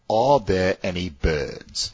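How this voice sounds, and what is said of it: Passable put-on British accent. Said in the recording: “try to speak that in a British accent ... Are there any birds, please, in a British accent? ... I thought that was okay. That was passable.”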